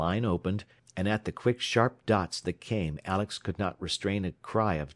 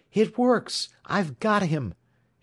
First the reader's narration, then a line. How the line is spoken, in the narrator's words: he exclaimed